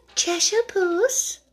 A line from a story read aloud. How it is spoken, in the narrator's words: she began, rather timidly, as she did not know at all whether it would like the name